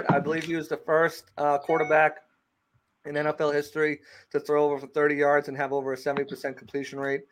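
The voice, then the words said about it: New England regional accent. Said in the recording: “I can kind of sense by your accent you might know a little bit about the Pats”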